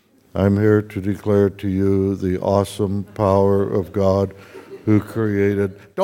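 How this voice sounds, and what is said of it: Flat robotic computer voice. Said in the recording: “in a computer voice”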